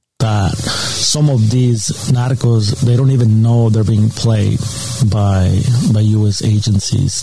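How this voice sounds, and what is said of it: Thick accent. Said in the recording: “thick accent there”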